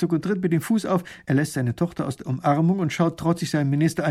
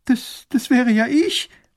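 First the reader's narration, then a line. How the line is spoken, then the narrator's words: Girl sobbing. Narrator (German): schluchzt das Mädchen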